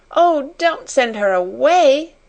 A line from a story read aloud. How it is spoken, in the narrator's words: she sobbed